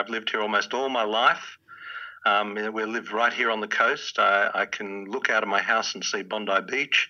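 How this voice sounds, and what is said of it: Australian accent. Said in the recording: “You're from Australia. I think people might be able to kind of hear that in your voice”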